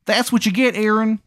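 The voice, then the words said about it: Exaggerated Maryland accent. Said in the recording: “He's got like a terrible Maryland accent.”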